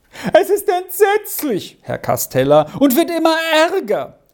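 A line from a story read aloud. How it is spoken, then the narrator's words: Highly agitated call. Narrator (German): rief ihm in höchster Aufregung entgegen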